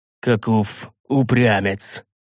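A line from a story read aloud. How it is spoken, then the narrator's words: Respectful yet displeased grunt. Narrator (Russian): С настоящим уважением в голосе и одновременно недовольством хмыкнул дядюшка Истогвий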